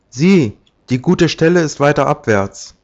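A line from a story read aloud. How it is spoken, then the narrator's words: Unseen voice calling. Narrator (German): rief die Stimme eines Unsichtbaren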